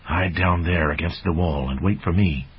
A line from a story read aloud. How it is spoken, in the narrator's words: whispering